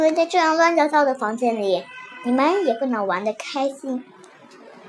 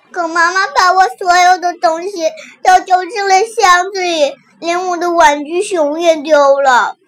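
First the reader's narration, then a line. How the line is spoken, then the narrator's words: Crying child. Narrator (Chinese): 小熊妹妹哭着说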